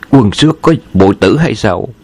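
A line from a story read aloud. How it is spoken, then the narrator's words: Startled exclamation. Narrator (Vietnamese): Tống Sư Đạo giật mình thốt lên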